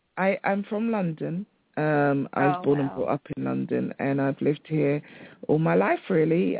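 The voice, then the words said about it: British accent. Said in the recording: “You're from the UK? ... I love your accent. I can listen to her all night.”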